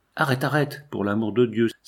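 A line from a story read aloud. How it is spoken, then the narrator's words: Pained cry. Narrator (French): s'écria Toffel d'une voix qui faisait deviner ce qu'il avait souffert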